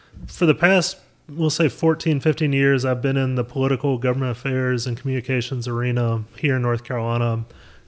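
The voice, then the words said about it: North Carolina accent. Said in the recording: “as you can tell by my accent, I'm native to North Carolina”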